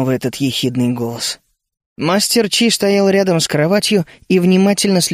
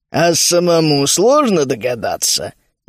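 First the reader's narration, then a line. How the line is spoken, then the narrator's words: Mocking question. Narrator (Russian): насмешливо спросил маг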